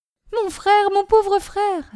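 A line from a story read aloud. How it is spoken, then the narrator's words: Painful cry. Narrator (French): s'écria douloureusement Caroline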